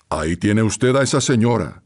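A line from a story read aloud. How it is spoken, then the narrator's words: Curt, imperious. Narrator (Spanish): dijo con tono seco e imperiosa voz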